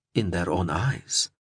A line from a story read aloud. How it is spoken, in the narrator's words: she replied softly